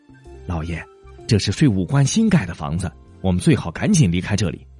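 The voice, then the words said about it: Quiet, hushed speech. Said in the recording (Chinese): “他妻子小声说”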